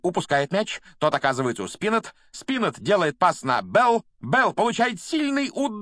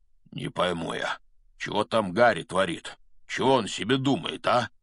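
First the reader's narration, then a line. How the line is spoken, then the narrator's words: Mumbling. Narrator (Russian): бормотал Хагрид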